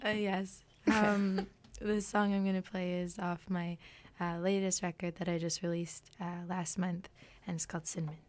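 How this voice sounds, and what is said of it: Hoarse, husky voice. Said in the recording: “I have some laryngitis today, so I've got my sexy voice on.”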